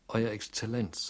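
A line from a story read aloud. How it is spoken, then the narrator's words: Plain. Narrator (German): sagte er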